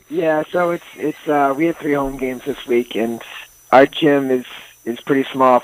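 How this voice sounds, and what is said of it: Slightly hoarse voice. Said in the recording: “You're a little bit hoarse”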